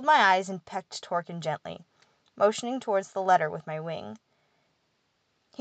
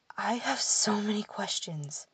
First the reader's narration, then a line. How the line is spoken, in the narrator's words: Edwin whispered